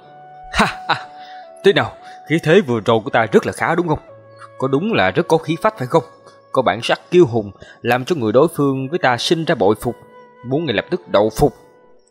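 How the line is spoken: Loud mocking laughter. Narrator (Vietnamese): Lệ Phi Vũ bộ mặt cười cợt lại xuất hiện, hắc hắc cười lớn nói

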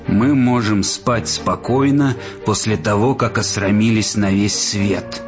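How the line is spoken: Hiss. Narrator (Russian): прошипел он

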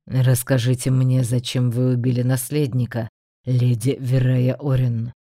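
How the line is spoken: Flat, colorless voice. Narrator (Russian): Бесцветным голосом уточнил

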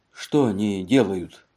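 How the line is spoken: Plain. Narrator (Russian): спросил Элли

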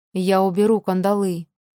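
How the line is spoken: Calm. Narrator (Russian): спокойно произнес он

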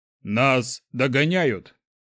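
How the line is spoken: Thunderous booming voice. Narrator (Russian): Голос Шухрага прогремел, как гром среди ясного неба

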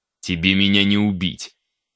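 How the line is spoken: Growl. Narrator (Russian): Прорычал

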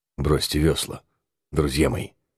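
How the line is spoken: Quiet speech. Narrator (Russian): сказал Гутер тихо

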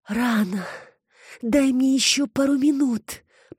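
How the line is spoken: Moaning reply. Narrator (Russian): простонала Алекс в ответ

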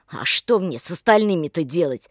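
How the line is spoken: Angry reply. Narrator (Russian): зло ответил Олег

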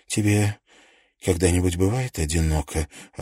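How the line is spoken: Sighing. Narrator (Russian): Она вздохнула

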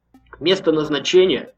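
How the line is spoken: Angry driver. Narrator (Russian): произнес сердито водитель

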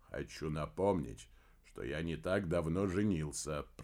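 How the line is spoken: Grumbling. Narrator (Russian): проворчал Помпилио

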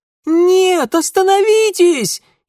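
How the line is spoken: Piercing shriek. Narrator (Russian): Еще пронзительнее завизжала Ада

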